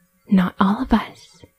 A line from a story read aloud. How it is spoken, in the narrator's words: a whisper came back